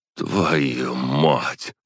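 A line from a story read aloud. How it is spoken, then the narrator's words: Groan. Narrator (Russian): простонал я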